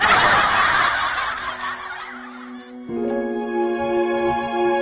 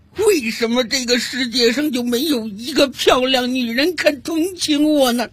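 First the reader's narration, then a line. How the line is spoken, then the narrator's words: Sobbing, muttering to himself. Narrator (Chinese): 男的哭得更厉害了，一边哭还一边自言自语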